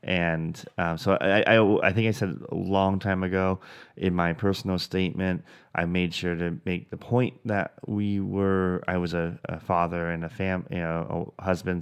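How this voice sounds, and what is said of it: Stuttering, halting speech. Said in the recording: “I'm stuttering through this.”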